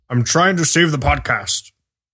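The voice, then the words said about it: Imitates another person's voice. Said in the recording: “That was a very bad Liam Neeson impression... that was not even a very bad Liam Neeson impression. That was just not anything.”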